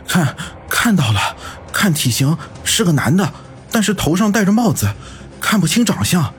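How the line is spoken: Breathless. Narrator (Chinese): 安然一边喘着气，一边说道

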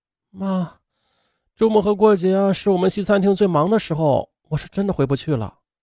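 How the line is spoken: Sighing, resigned. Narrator (Chinese): 萧静沉默了一会儿，叹了口气说

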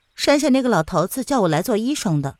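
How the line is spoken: Flat, indifferent. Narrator (Chinese): 却仍然是淡淡的说

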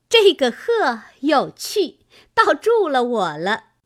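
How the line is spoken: Laughing. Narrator (Chinese): 湘云笑道

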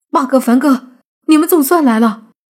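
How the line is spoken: Eager excited shout. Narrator (Chinese): 突然见到了美女一样，急忙喊道

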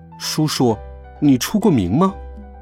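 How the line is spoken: Soft question. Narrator (Chinese): 我轻声问他

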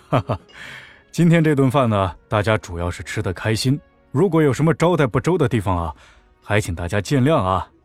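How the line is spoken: Laughing. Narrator (Chinese): 笑着说

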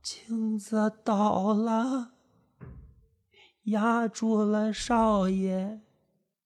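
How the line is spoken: Eerie frightening tone. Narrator (Chinese): 老妈子用可怕的语调说道

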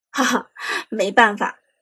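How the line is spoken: Hearty laugh. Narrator (Chinese): 苏哲哈哈一笑

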